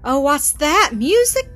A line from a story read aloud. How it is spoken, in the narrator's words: cried the little ones